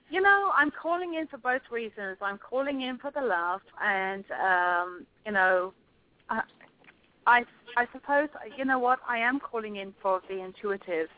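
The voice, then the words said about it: Noticeable accent. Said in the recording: “I love your accent.”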